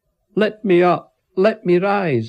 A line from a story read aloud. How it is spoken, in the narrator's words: I shouted